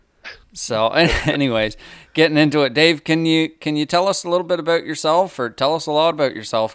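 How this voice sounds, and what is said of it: Rural Carlton County hillbilly accent. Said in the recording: “accents, maybe, or mine. ... You definitely got an accent. You're definitely a Carlton County hillbilly.”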